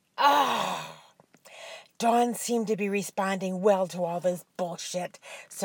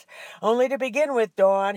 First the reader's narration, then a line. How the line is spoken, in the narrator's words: panted